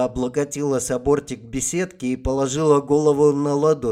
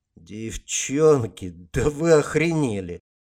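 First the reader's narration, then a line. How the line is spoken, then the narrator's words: Tired. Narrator (Russian): устало произнес Гард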